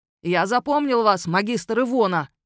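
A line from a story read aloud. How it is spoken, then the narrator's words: Parting bark. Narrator (Russian): рявкнул он напоследок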